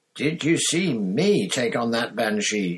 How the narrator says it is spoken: shouted Seamus

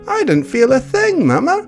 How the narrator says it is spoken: Ada said, smiling brightly

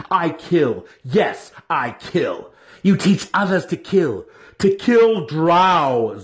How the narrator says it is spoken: Zack roared

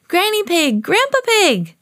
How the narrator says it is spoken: cried Peppa

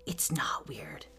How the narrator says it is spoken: whispered Mike Sutton from behind us

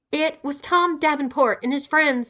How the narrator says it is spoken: said Adam, practically screaming

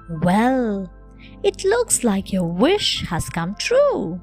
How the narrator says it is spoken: exclaimed Daddy happily

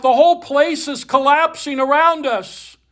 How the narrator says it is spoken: a third voice cried out

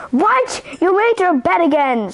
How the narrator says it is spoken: screeched Mother Witch

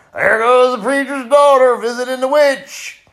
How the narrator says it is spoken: They would holler

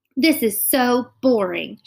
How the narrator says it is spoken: exclaimed

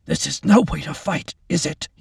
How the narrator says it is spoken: managed in a rough voice

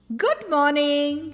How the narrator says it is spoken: he cried

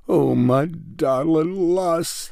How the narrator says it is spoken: wailed

